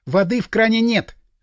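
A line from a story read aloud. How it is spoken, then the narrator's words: Shout from behind. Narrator (Russian): крикнула откуда-то сзади Маша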